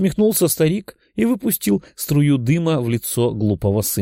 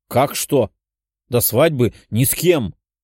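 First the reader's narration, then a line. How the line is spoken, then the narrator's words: Growl. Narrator (Russian): прорычал мужчина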